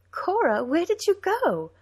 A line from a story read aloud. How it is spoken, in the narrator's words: asked Denna, twirling and laughing